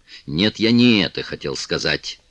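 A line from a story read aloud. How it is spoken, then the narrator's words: Angry correction. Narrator (Russian): сердито поправил ее милорд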